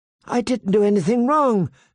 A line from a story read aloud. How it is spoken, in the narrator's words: Sansa pleaded with him